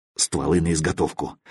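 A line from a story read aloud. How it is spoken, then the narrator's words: Low-voiced command. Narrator (Russian): вполголоса велел Мазай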